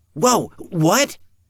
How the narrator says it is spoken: Evan cried out

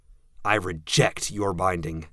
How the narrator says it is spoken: I spat the words

